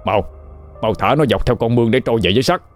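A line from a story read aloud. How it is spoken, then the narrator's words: Cautious loud shout, old man. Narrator (Vietnamese): ông Năm thận trọng hét lớn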